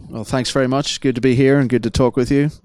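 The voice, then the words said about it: Northern Irish Belfast accent. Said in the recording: “your accent would suggest you don't hail from Philadelphia, Pennsylvania ... I'm originally from Belfast, Northern Ireland”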